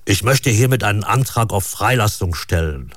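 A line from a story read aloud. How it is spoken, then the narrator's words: Firm voice. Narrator (German): sagt Krawack mit fester Stimme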